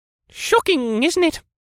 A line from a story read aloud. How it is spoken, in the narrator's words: he lamented in a squawking voice that reminded me strongly of a talking parrot